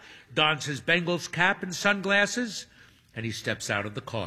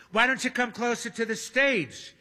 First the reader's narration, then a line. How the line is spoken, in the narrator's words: She asks brightly